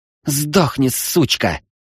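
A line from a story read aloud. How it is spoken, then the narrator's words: Hissing. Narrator (Russian): прошипела Анастария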